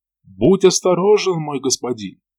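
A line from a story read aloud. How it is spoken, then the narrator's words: Shout. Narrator (Russian): выкрикнул Алик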